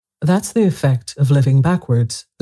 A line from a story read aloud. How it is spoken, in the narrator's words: the Queen said kindly